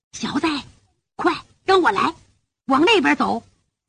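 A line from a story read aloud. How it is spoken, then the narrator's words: Very quiet whisper. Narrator (Chinese): 有人说话，声音特别小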